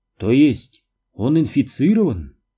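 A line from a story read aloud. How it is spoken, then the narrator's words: Calm. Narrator (Russian): спокойно сказала Маргарет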